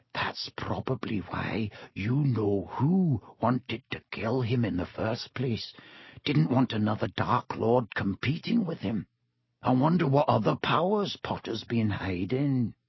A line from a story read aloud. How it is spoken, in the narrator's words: He dropped his voice until it was barely more than a whisper and said